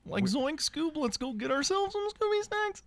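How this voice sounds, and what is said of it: Hillbilly Shaggy cartoon voice. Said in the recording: “It's just Shaggy from Scooby-Doo, but without the funny stuff ... It's Hillbilly Casey Kasem”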